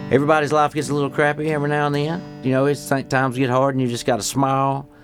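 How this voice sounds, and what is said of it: Fairly thick accent. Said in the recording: “I have an accent and ... It's a little thick”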